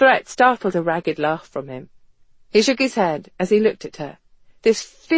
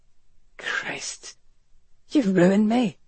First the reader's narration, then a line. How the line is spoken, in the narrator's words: he whispered